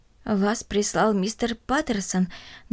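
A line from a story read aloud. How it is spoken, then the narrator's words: Trembling old woman's voice. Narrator (Russian): дрожащим голосом спросила бабушка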